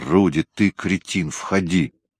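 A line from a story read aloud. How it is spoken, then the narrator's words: Growl. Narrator (Russian): Патмор прорычал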